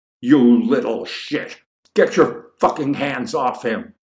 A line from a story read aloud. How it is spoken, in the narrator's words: A large man, who strikes Matthew as quite likely a high school football coach, bellows at the larger